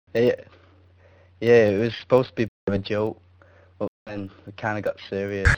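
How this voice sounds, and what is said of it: English accent. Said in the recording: “I noticed you got an accent ... From England ... In Blackpool”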